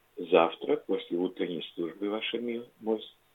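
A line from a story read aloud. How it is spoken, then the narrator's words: Soft gentle voice. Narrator (Russian): тихим нежным голосом ответила прислуга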